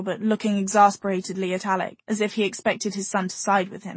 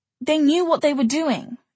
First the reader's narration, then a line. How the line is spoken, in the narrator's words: Isabel snapped